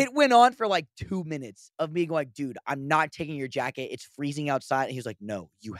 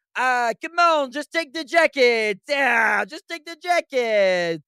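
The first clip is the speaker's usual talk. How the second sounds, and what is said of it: Put-on French accent. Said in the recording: “that's definitely not a Belgian accent... type of Italian... Accent... French.”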